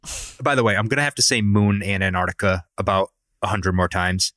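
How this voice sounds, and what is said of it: Strong Rhode Island accent. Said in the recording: “with this accent ... my Peter Griffin ass accent ... is gonna sound awful”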